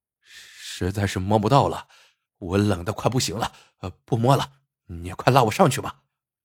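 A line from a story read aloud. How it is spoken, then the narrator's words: Stammering. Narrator (Chinese): 结结巴巴的说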